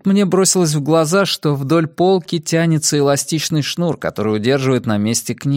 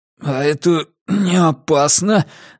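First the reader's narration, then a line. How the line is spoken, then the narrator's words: Strained. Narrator (Russian): выдавил я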